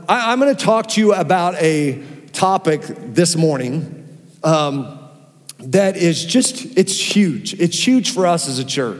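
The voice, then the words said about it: Strained, worn-out voice. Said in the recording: “my voice is barely hanging on. It sounds better to this service and last service.”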